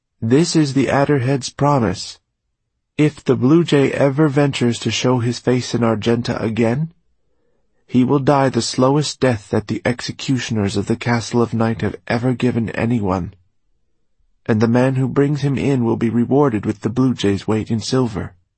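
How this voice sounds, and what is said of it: Hesitant boy's voice. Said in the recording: “the boy began in a hesitant voice”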